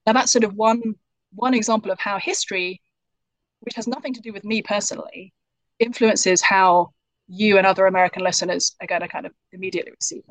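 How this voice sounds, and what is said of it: British English accent. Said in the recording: “British people sound sophisticated ... I have something which I could call kind of British privilege in America ... because of my accent”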